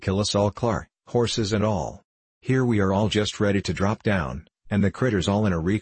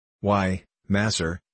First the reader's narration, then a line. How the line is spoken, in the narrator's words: said Sam, in a deprecating tone